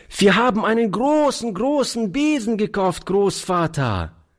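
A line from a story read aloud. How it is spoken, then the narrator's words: Delighted child calling out. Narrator (German): rief die Kleine voll Entzücken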